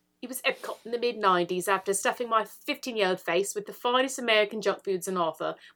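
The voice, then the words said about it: Put-on British accent. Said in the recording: “Maybe I should do this in a British accent, should I?”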